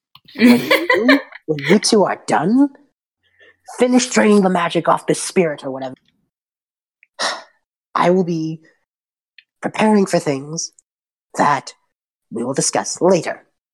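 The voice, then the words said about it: Character voice like an angry parent. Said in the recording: “She sounds like an angry parent.”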